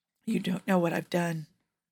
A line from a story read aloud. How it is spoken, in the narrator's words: the man whispered